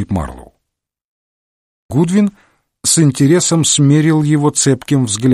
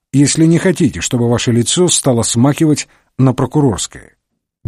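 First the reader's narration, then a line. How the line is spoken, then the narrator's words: Somewhat cheeky tone. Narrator (Russian): проговорил он несколько развязным тоном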